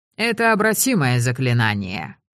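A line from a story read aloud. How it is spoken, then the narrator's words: Cold. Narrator (Russian): холодно сказал Рэндом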